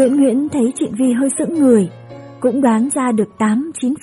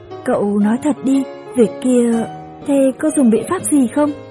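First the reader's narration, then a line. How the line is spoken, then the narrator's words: Serious, quiet. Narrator (Vietnamese): Nguyễn Nguyễn nghiêm mặt, khẽ nói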